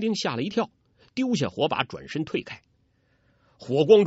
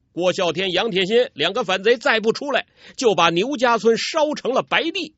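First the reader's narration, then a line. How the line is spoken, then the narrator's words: Soldiers shouting. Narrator (Chinese): 两名兵丁 嘴里大叫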